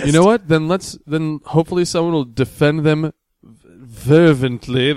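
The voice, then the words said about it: Attempted British accent. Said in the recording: “I was trying to throw a British accent in there”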